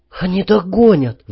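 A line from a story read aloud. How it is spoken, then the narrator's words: Barely audible whisper. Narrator (Russian): вновь еле слышно шепнул Димка, и я увидел, как он беззвучно плачет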